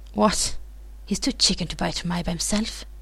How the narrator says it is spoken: Nino snorts

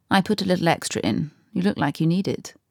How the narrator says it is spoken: The fugitive ... murmured

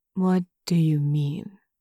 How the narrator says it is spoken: Lenchen asks slowly, carefully

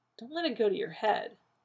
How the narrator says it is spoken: John muttered

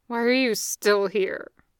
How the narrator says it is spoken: Dev managed to grumble between sniffles

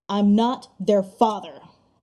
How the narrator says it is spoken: Derek growls

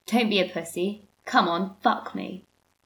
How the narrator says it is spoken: Dean ... growls

